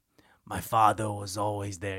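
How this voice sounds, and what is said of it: Imitates a New York accent. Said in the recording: “He says father. ... Like a New York accent. I was like, that's a fucking weird accent.”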